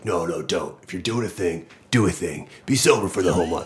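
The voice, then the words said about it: Imitates another person's voice. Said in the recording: “That was my Tuohy impression.”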